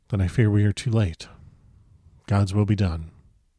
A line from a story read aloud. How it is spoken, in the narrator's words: said solemnly